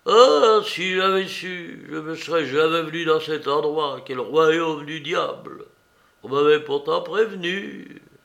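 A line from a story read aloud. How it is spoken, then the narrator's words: Pained sigh. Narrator (French): il ajouta, en poussant un douloureux soupir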